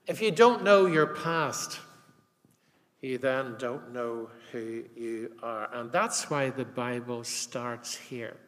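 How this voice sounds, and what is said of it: Northern Irish Armagh accent. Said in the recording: “my annoying Armagh accent”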